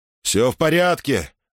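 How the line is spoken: Breathless pained shout. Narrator (Russian): крикнул Муса, задыхаясь от боли

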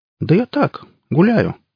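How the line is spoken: Carefree reply. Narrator (Russian): беззаботным голосом ответил пипец

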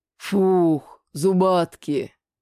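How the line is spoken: Relieved sigh. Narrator (Russian): Облегченно вздохнул за моим плечом шкип Лигнурф

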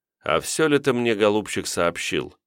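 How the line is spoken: Plain. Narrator (Russian): спросил тот

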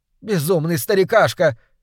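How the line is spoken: Shouted from stage. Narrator (Russian): как крикнула сейчас со сцены Алла Солецкая

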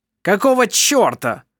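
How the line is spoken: Shouted, man. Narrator (Russian): крикнул один из мужчин

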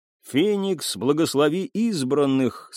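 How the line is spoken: Plain. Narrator (Russian): сказали они

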